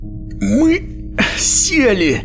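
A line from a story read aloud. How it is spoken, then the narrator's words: Strained, forced-out words. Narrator (Russian): выдавил он из себя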